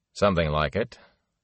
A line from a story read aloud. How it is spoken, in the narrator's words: Lan chuckled wryly